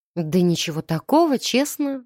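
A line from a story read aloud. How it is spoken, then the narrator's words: Confused mumble. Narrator (Russian): растерянно пробормотала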